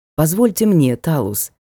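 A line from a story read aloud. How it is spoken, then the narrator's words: Gentle request. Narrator (Russian): мягко попросил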